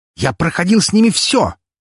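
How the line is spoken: Emotional barking shout. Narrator (Russian): рявкнул Меркулов, на эмоциях

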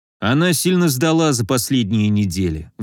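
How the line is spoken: Sighing. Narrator (Russian): вздохнул Николай

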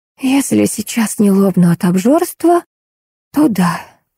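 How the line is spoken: Whisper. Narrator (Russian): прошептала я

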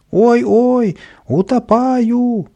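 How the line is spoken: Panicked wailing. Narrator (Russian): вопил Каприска

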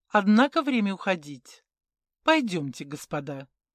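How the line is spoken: Calm address. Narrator (Russian): Спокойно обратился

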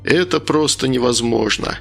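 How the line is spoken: Short laugh. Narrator (Russian): Каин опять хохотнул

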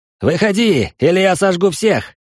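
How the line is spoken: Young man shouting. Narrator (Russian): выкрикнул молодой парень

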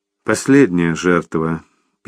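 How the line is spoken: Sad summing up. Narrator (Russian): печально подытожила Лиз

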